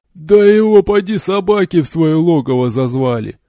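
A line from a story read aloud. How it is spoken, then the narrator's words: Gruff chuckle. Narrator (Russian): хохотнул рыжебородый крепыш, судя по татуировкам и амулетам, наемник севера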